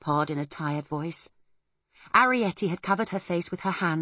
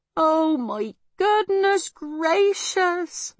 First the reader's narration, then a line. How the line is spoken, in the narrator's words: moaned Homily